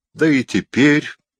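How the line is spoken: Muffled low voice. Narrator (Russian): промолвила она глухо

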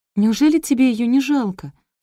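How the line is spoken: Sobbing. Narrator (Russian): всхлипнула я

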